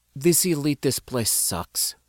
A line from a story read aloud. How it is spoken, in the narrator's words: Syndra muttered